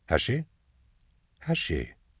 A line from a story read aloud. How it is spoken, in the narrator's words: Endor murmured